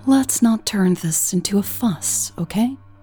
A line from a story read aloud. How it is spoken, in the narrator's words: Michelle sighed